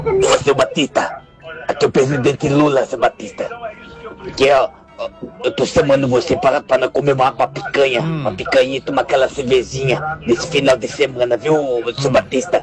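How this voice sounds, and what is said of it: Poor imitation of another person's voice. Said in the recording (Portuguese): “que imitação ruim é essa, hein?”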